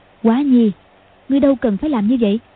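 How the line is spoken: Sighing. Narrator (Vietnamese): Hoàng Dung thở dài nói

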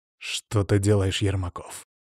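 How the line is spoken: Spiteful words through teeth. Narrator (Russian): злобно процедил граф Воробьев

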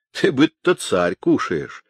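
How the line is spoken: Laughing. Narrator (Russian): засмеялись люди гулящие

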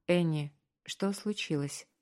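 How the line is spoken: Quiet, gentle. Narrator (Russian): спросил он тихо, чтобы не напугать ее

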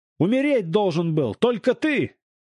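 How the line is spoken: Man shouting out. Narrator (Russian): выкрикнул мужчина

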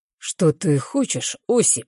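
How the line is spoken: Hoarse question. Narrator (Russian): хрипло спрашивает

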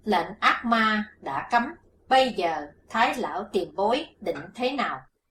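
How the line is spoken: Stern question. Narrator (Vietnamese): Hắc Phụng Hoàng nghiêm giọng hỏi

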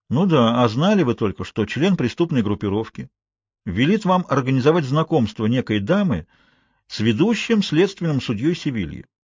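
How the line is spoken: Plain. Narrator (Russian): сказал Фалькон

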